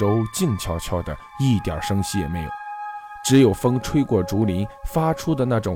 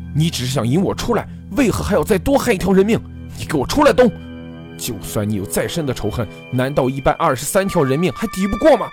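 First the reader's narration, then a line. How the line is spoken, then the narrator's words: Shocked furious roar. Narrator (Chinese): 何建飞惊怒之极，大吼出声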